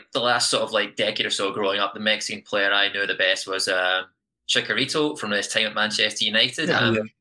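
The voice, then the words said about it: Scottish accent. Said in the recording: “as you can probably tell by my accent, I'm from the UK, specifically Scotland”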